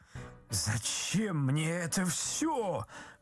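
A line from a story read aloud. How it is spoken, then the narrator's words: Exclaimed. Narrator (Russian): воскликнул Ипполит Матвеевич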